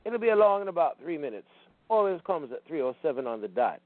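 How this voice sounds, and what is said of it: Crisp West Indian accent. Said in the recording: “he said in a crisp West Indian accent”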